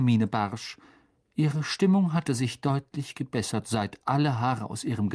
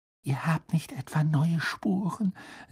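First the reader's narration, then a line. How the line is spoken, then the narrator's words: Secretive whisper. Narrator (German): setzte sie flüsternd hinzu, damit Madame Pomfrey nichts hörte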